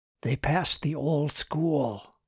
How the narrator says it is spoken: Martin whispered for those behind him

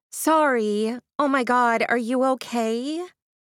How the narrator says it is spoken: calling out in a false tone

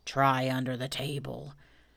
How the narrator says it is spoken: said in a loud whisper

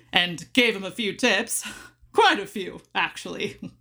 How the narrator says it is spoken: chuckled

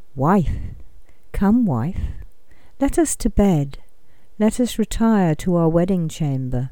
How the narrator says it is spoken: said very gently

